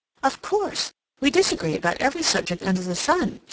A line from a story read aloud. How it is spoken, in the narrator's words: she exclaimed